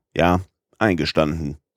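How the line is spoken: Cold reply. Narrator (German): erwiderte Herr Fogg kalt

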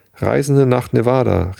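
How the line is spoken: Calling out. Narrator (German): rief Jefferson Hope

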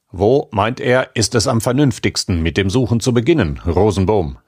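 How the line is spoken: Plain question. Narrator (German): fragte der Bronzemann

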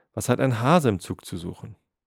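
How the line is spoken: Someone calling out. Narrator (German): rief jemand

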